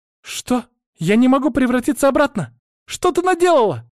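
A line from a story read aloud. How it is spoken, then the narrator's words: Angry girl's shout. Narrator (Russian): Закричала девочка, гневно уставившись на меня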